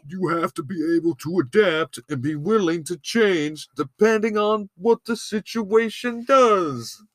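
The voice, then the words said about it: Put-on accent that shifts midway. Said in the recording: “What kind of accent are you trying to do there? ... I know it changed as I went.”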